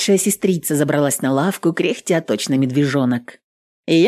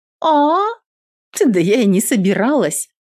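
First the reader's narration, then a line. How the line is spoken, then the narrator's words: Snorting. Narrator (Russian): фыркнула Нюта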